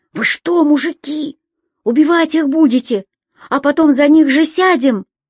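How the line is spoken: Frightened sentry asking. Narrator (Russian): испуганно спросил часовой

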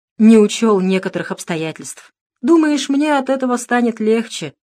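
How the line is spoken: Sighing. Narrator (Russian): вздохнул манучар

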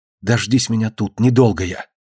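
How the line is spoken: Whispered. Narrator (Russian): шепнула кормилице

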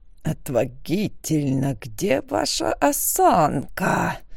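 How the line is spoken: Hissing from behind. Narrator (Russian): зашипели позади

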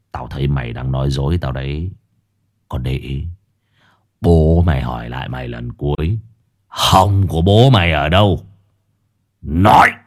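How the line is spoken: Harsh, menacing. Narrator (Vietnamese): Lão gằn giọng

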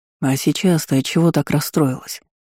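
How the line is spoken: Plain. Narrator (Russian): спросил Ирден

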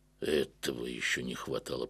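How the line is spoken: Grumbling. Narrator (Russian): проворчал я

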